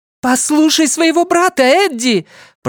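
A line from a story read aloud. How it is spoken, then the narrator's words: Shrill distant mother's shout. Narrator (Russian): пронзительно крикнула мать из глубин пещеры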